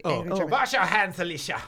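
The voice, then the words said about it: Yelled put-on German accent. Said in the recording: “Say, you'll wash your hands at me in a German accent... No, yell wash your hands at me... Ooh, that's good... that's intimidating.”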